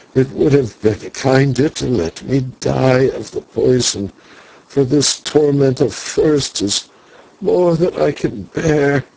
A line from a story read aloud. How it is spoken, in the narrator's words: He groaned and was silent for a while, then said